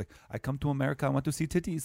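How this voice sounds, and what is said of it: Stereotyped Indian accent impression. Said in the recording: “the Indian stereotype of like a foreign exchange student ... That's not a great Indian impression.”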